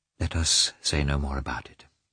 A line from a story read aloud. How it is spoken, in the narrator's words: she added more calmly